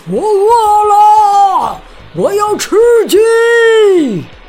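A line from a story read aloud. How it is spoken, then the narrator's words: Giant shouting loudly. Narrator (Chinese): 巨人还在大声呼喊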